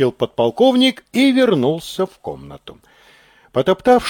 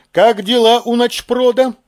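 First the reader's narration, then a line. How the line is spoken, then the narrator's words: Brisk, cheerful question. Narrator (Russian): бодро спросил он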